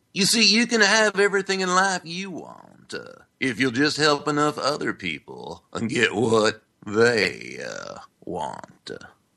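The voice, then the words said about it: Imitates another person's voice. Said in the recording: “do a serious Zig Ziglar impersonation ... And I can hear the applause”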